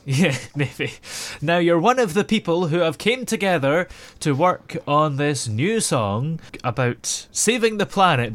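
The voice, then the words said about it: Scottish accent. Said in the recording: “I detect the Scottish accent. I love the accent”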